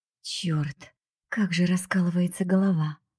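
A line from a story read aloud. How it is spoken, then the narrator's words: Groaning. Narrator (Russian): простонал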